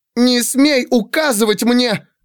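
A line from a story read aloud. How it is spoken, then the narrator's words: Shouting through tears. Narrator (Russian): крикнула она, глотая слезы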